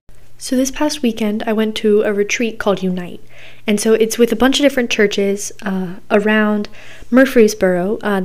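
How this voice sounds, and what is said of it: Hoarse, raspy, nearly lost voice. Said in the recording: “I'm kind of getting over losing my voice ... I was yelling a lot and singing a lot, and so my voice is like almost gone ... my throat's really weird feeling, and my voice sounds like I'm a smoker”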